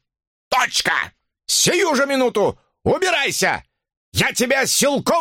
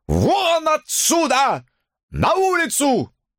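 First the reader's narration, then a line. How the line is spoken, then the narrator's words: Yelling. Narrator (Russian): орал он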